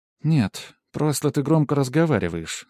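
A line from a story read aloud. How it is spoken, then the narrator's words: Calm. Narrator (Russian): спокойно ответила Лия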